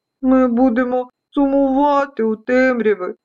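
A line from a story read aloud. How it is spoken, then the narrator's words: Tiny voices sobbing, fading. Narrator (Ukrainian): схлипували деякі пилинки, зникаючи у залізному тілі пилососа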